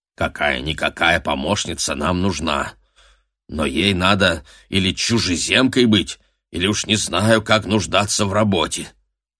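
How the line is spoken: Grumble. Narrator (Russian): пробурчал Дэниел

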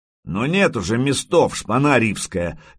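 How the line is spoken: Barked. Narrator (Russian): гаркнул Рябой

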